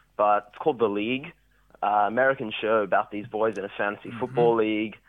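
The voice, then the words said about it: Mixed Australian and foreign-sounding accent. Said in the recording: “What is that accent? ... South African? ... It's like part an Australian accent, part, you know, international student come from somewhere else.”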